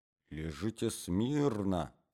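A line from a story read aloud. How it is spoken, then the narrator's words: Young man whispering. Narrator (Russian): прошептал молодой человек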